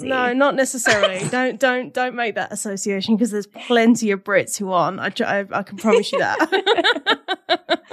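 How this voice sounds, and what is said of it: British accent. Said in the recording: “I've got, everyone loves a British accent, I find, in America”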